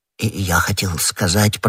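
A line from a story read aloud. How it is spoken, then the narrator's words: Embarrassed mutter. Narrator (Russian): пробормотал Бонасье, заметив, что ответил неудачно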